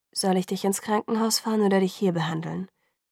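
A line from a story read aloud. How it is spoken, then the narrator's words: Gentle. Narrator (German): sagte Carlyle sanft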